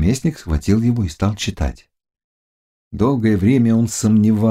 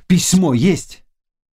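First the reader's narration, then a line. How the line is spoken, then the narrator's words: Shouted. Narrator (Russian): Наместник крикнул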